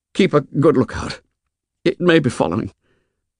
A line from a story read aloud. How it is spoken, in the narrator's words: He lay silent for a moment, then muttered